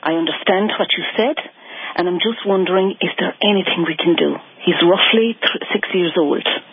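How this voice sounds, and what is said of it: Irish accent. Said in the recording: “I figured there was an Irish accent.”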